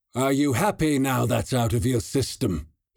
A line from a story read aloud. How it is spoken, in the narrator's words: sneered in his unusual accent